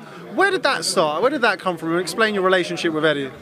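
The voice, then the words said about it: British accent. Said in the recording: “you can hear by my accent, I'm from the UK”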